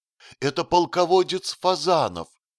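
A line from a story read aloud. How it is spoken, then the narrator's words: Joyful shout. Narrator (Russian): радостно закричал Феликс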